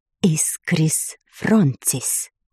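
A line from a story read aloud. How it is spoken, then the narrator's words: Soft whisper. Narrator (Russian): негромко шепнула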